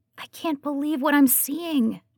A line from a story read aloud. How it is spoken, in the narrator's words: anxiously whispers